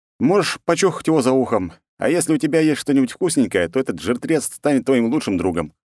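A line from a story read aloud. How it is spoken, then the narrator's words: Snorting. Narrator (Russian): хмыкнул я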